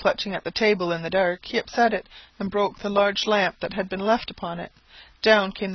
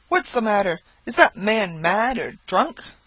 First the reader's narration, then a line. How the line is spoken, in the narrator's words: exclaimed several voices